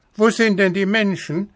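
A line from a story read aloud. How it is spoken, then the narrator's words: Called upward. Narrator (German): rief der kleine Häwelmann hinauf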